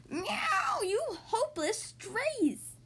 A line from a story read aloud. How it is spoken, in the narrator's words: Tersilla cried